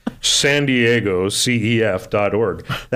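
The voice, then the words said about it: Radio announcer voice. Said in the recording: “Here's my radio announcer voice.”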